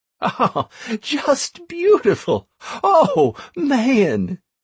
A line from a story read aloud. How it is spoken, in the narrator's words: Still laughing, Anastaria